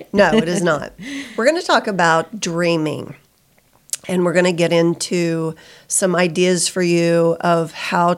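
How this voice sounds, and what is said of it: Squeaky, sick-sounding voice. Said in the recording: “I've got the crud. So you can hear it in my voice. I might be a little squeaky. I might have to cough.”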